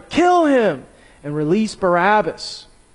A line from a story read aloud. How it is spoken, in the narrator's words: a mighty roar rose from the crowd, and with one voice they shouted